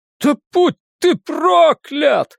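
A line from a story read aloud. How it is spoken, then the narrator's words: Shrill shriek. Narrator (Russian): взвизгнул Иисус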